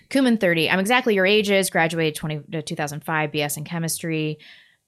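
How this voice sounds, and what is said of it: Reading very fast. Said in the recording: “I will like really read this fast.”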